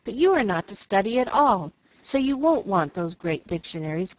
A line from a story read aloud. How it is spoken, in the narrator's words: cried Jill